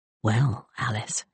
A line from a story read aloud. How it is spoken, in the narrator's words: she murmured